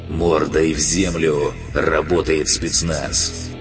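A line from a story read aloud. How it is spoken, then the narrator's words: Menacing amplified roar. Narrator (Russian): Усиленный динамиками голос грозно прорычал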